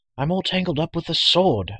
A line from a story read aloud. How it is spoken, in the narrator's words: Ellenwe panted